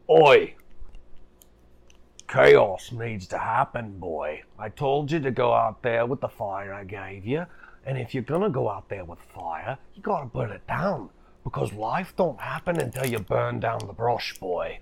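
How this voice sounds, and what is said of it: Weird character voice. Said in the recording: “there's this weird voice you begin to hear.”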